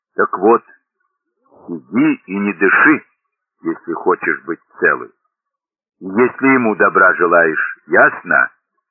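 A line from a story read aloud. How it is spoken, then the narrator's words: Calm, insolent. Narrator (Russian): Ганна ответила спокойно, дерзко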